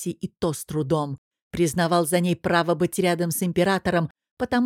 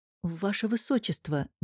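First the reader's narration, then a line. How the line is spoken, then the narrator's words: Soft call. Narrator (Russian): негромко позвал он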